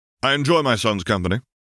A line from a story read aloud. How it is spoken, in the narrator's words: he said firmly